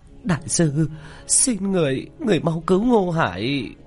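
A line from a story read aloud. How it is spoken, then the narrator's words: Sobbing. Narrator (Vietnamese): Vu Mộng thút thít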